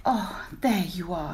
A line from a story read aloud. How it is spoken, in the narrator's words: sighed